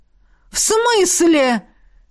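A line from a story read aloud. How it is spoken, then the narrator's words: Roared. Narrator (Russian): взревела ректор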